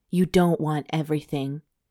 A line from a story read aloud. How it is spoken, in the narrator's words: he whispered